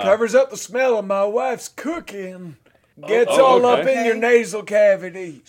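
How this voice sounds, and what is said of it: Raspy old man voice. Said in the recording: “raspy old man voice”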